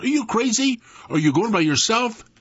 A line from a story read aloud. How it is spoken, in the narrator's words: yelled